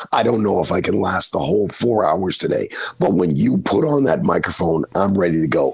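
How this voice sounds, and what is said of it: Hoarse, worn-out voice. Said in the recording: “That's why I was screaming. That's when my voice is basically gone.”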